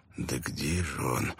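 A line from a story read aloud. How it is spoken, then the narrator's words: Muttered. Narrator (Russian): пробормотал Бен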